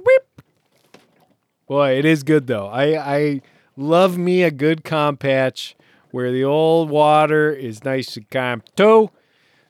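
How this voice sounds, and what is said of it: Put-on New York Jersey accent. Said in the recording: “my old New York, Jersey accent. Probably gonna sound pretty stupid.”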